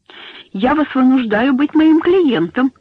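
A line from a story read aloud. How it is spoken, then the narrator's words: Host laughing loudly. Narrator (Russian): сказал хозяин, громко смеясь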